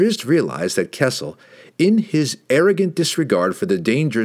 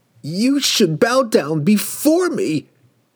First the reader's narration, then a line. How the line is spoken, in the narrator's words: he screamed at Drizzt